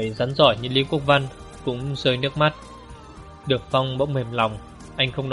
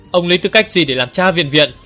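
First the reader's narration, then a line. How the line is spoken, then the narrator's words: Furious yell. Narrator (Vietnamese): Đường Phong, tức tối, anh gào lên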